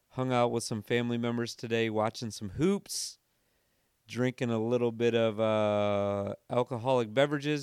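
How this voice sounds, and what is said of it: Slightly hoarse voice. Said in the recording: “my voice is a little hoarse, it's because it is 2:15 in the morning”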